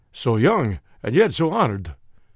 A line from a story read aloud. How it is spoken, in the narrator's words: he exclaimed